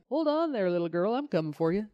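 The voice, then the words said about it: Failed attempt at Irish accent. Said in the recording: “you have to read everything that he says in an Irish accent. ... Can I do an Irish accent? Probably not. ... Nope. That's not it. That's not it.”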